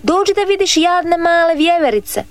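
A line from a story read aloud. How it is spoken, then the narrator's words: Boy shouting. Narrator (Croatian): viknu dječak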